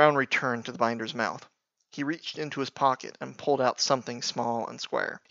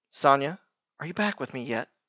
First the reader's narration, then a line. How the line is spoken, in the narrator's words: Daedri smiling uneasily